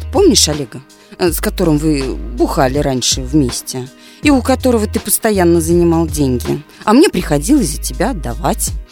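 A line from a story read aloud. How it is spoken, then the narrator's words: Calm. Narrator (Russian): спокойно сказала бате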